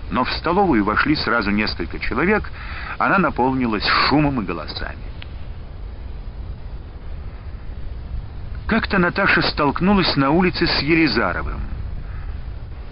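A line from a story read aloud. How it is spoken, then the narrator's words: Spiteful. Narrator (Russian): сказал он, злобно глядя на нее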